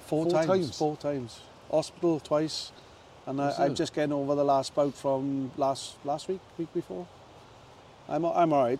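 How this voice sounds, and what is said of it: Hoarse, chesty voice. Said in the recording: “it's just on my chest. That's why my voice is a bit awesome”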